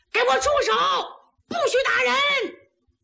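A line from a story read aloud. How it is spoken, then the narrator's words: Shouting. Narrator (Chinese): 岳云就看不了这个，冲里边大喊一声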